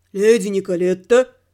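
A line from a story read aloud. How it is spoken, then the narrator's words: Menacing bass call. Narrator (Russian): То ли позвал, то ли спросил он грозным басом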